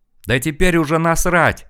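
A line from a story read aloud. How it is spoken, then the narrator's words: Yell. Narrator (Russian): заорал я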